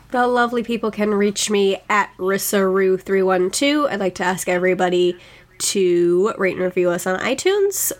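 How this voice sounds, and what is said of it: Sick, slightly off-sounding voice. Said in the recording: “sorry that I'm not still feeling well. I sound a little weird and I did cough a little bit”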